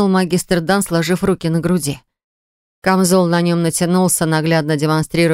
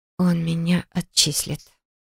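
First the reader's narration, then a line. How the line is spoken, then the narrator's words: Whisper. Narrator (Russian): прошептала я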